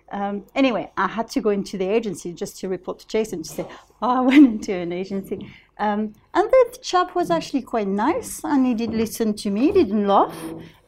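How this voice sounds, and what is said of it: French accent. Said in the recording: “I've got a French accent.”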